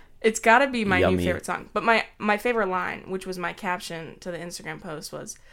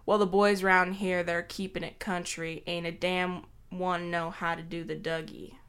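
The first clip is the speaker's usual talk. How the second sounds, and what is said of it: Put-on Southern North Carolina accent. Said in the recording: “as a... resident of the state of North Carolina, I find your accent incredibly offensive... what you just did, I think, is no better than impersonating someone from India or something”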